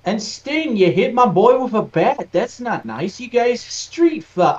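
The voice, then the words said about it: Unidentified put-on accent. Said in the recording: “I don't know what this accent I'm doing is.”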